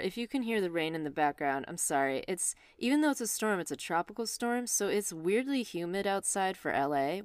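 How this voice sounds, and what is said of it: Out of breath, breathless speech. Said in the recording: “I'm sorry I'm so out of breath. ... catch your breath there”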